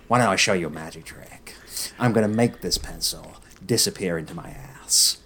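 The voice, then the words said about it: Joker character voice. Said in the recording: “Can anyone do the Joker? ... Joker, come on.”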